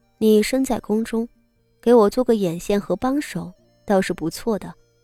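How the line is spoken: Cool, indifferent. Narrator (Chinese): 傅锦仪淡淡道

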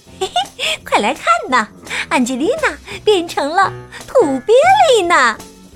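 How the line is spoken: Smirking older kid. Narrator (Chinese): 其中一个还坏笑着说

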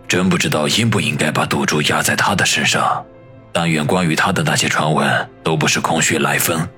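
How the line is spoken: Muttering to oneself. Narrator (Chinese): 低声的自语道

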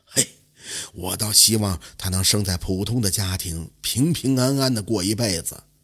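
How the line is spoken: Long sigh. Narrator (Chinese): 晋安公长叹一声就说

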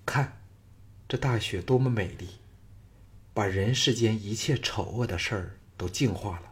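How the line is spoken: Faint smile. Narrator (Chinese): 赵雅淡淡的笑道

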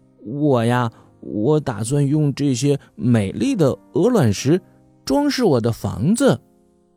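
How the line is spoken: Smiling. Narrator (Chinese): 乌龟弟弟笑着说

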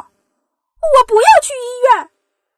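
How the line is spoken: Muffled loud shout. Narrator (Chinese): 小公主捂着鼻子大叫

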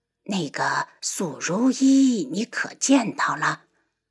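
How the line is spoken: Quiet. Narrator (Chinese): 太后小声道

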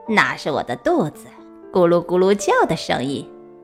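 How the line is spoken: Sly, mischievous laugh. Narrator (Chinese): 他不怀好意的对小鸭笑着说

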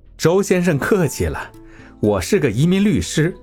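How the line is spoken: Calm, smiling. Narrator (Chinese): 李宏源淡定一笑

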